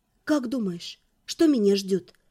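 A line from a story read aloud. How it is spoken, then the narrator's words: Whisper. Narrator (Russian): прошептала я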